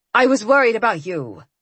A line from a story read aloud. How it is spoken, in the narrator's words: she said in a defensive tone